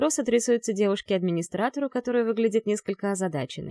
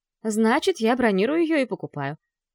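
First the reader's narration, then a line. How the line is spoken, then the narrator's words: Insistent tone. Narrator (Russian): настойчивым тоном произношу я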